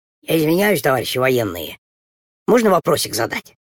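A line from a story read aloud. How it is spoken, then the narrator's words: Heavy sigh, embarrassed. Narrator (Russian): тяжело вздохнул, покраснел и сказал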